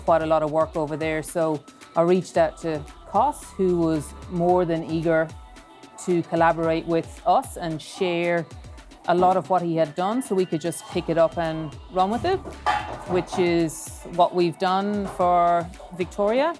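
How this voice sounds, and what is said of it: Irish accent. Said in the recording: “he realized I was Irish because it was the first time he heard me talk. And emails don't get my accent across really well.”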